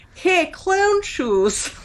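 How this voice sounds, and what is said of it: Exaggerated Russian-accented character voice. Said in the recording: “He is Russian. He has a horrible Russian accent”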